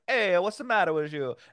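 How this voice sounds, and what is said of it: Put-on Italian accent. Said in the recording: “do your whole set in a, like an Italian accent”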